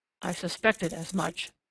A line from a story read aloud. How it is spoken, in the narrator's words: said Germain in an undertone